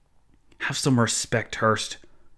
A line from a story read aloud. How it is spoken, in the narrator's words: Joseph Zahn hissed